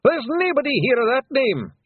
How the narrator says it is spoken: shouted Rob Anybody

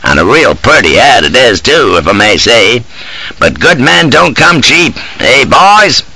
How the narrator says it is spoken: chuckles the Colonel

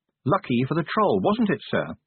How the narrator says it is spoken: said Angua sharply

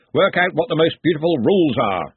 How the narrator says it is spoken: Ridcully called out, heading out of the hall at speed

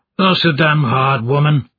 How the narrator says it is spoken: The old man grunted with each step, and once mumbled

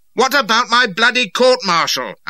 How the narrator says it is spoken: I shouted after him

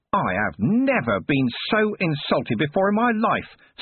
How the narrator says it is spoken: screamed the enraged nurse

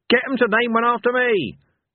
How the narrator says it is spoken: yelled Cohen

